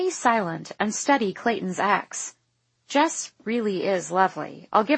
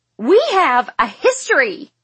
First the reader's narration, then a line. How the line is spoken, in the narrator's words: Jess shrieks